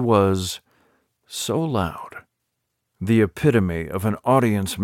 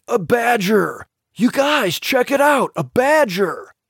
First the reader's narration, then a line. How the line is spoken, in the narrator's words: a 30-something dad up ahead on the trail kept erroneously but enthusiastically yelling to his group